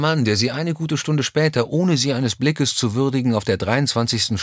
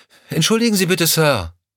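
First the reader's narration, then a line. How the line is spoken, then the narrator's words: Calling after someone. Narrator (German): rief Lorna ihm hinterher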